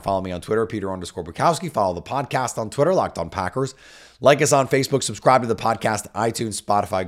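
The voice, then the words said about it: Hoarse, gravelly raspy voice. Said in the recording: “hopefully I can speak by then in a normal voice where I don't sound like I've been gargling with gravel”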